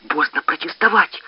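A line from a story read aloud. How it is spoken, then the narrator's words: Hissing. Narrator (Russian): прошипела Зинаида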